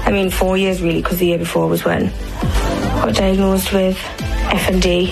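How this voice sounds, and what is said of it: Geordie accent. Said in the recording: “she ended up having a Geordie accent. So this is what it sounded like.”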